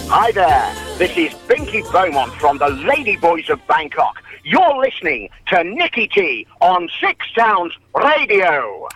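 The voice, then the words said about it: Great radio announcer voice. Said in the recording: “I do love that man's voice. He's got a great radio voice”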